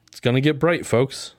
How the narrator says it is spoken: says Chen

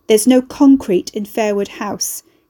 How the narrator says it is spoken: Carrie and Fairwood snapped in one voice

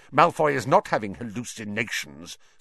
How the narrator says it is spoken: snarled Snape

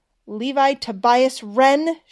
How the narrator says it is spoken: she shouted

